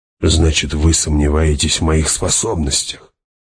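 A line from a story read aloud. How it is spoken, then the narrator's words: Sigh. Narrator (Russian): Она вздохнула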